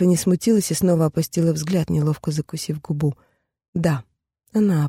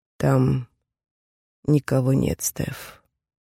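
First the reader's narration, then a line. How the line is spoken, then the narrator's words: Quiet, very serious. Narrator (Russian): тихо и почему-то очень серьезно заверил профессор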